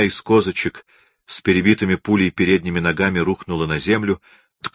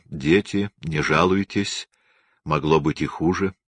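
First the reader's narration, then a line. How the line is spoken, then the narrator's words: Quiet. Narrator (Russian): Царь ... сказал тихо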